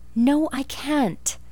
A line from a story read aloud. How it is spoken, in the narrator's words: exclaimed Anne desperately